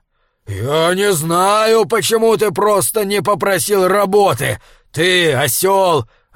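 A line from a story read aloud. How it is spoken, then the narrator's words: Growled. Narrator (Russian): рычал Фриавару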